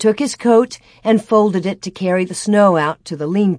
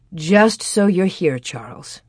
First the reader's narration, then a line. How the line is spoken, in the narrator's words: she murmured